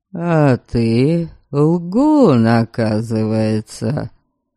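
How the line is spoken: Gloomy grumble. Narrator (Russian): Мрачно пробурчал

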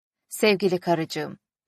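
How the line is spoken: Plain. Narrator (Turkish): dedi

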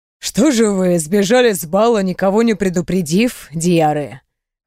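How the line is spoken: Emperor's amused grunt. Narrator (Russian): хмыкнул император

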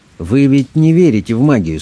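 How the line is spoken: Calm objection, priest. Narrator (Russian): спокойно возразил священник

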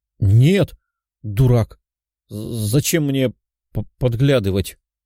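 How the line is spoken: Girl's stammering protest. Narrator (Russian): Запинаясь, возразила девушка

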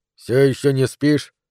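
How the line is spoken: Muttered. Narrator (Russian): пробормотал он

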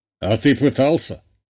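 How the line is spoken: Father's snorting chuckle. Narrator (Russian): хмыкнул отец

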